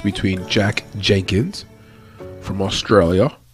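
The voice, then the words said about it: Imitated Australian accent. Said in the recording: “That's my version of the Australian accent there for you.”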